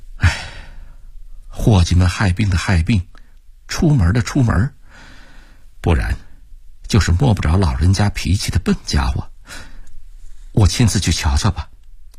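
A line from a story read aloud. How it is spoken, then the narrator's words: Sober muttering. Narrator (Chinese): 收敛了笑容，喃喃地说道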